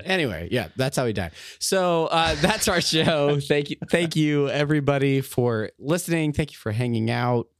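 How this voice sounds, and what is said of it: Voice nearly gone, worn out. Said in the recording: “my voice is about gone for some reason.”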